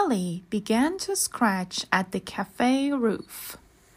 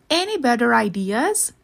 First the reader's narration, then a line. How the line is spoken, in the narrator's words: asked Max crossly